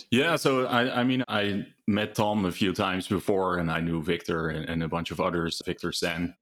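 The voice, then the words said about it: Dutch European accent. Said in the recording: “I'm a European, as you can tell from my accent. I'm originally from Holland”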